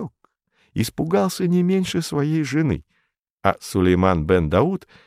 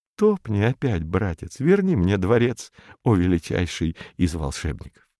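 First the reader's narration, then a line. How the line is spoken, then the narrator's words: Whisper. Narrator (Russian): шепнул мотыльку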